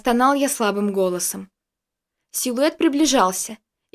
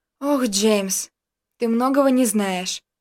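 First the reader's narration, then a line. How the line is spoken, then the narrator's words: Sighing. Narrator (Russian): вздохнув, произнесла Дарья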